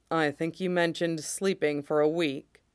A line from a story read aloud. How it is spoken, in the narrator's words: he says dryly